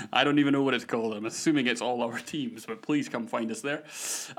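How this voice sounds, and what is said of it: Scottish accent. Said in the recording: “my ridiculous Scottish accent”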